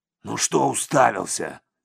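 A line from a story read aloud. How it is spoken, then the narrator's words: Growl. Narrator (Russian): рыкнул он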